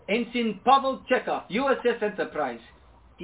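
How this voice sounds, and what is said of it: Russian-accented character voice. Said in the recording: “I can do the voice. ... This is getting very Russian.”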